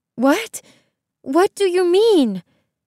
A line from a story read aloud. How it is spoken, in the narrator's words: Isabel asked, panting